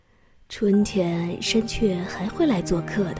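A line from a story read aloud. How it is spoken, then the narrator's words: Soft, gentle old voice. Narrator (Chinese): 熊爷爷轻声地说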